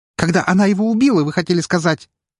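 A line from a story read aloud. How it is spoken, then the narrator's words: Near-hysterical young woman's exclamation. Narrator (Russian): Едва ли не истерично воскликнула девушка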